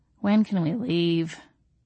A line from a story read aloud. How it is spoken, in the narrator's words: I murmured against his lips